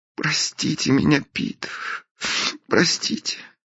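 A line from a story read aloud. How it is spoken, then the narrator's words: Sobbing. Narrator (Russian): всхлипнула Белинда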